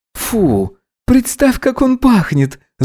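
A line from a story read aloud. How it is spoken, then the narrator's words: Laughing. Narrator (Russian): засмеялся Гидеон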